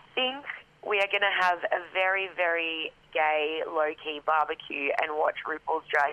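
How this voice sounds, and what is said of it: Worn-out, rough-sounding voice. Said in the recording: “my voice sounds this horrendous”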